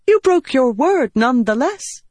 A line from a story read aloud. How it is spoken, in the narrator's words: Mishim cried